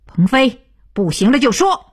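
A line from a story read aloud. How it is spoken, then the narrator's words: Loud. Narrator (Chinese): 徐东福大声道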